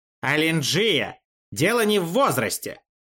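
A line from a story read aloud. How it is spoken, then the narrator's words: Snapped. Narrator (Russian): огрызнулся Шишульян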